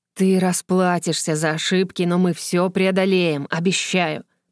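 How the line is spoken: Strained hiss. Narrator (Russian): прошипел вампир, борясь с действием снадобья

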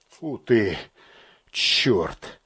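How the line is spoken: Mutter. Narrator (Russian): пробормотал подполковник

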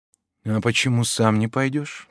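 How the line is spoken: Young woman's whispered question. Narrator (Russian): так же шепотом поинтересовалась девушка

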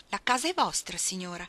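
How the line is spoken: Exclaimed. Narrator (Italian): esclamò

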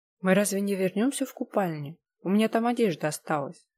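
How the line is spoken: Forced calm. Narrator (Russian): стараясь не паниковать, спокойно произнесла я

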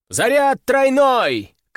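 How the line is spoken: Excited shout. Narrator (Russian): крикнул Орлов, уже не скрывая азарта

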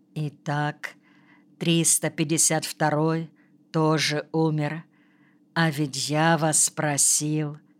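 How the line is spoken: Quiet. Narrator (Russian): он тихо говорит

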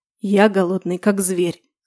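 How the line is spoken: Hoarse man. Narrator (Russian): хрипло выдает мужчина

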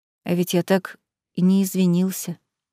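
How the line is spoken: Quiet wolf voice. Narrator (Russian): продолжил тихо говорить волк

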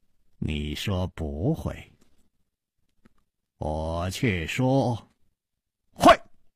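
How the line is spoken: Slow smiling. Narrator (Chinese): 楚留香缓缓地笑了

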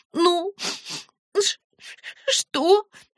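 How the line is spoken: Sobbing question. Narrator (Russian): спросила Света через некоторое время, все еще всхлипывая

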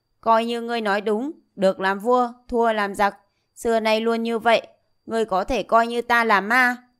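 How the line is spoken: Loud laughing. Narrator (Vietnamese): Diệp Chi Thu cười lớn

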